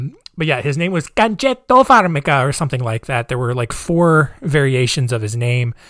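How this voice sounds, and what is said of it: Usual voice. Nothing is said of it.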